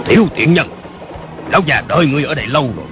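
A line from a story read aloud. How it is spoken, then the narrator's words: Old man shouting. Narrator (Vietnamese): một lão già cao lớn quát lên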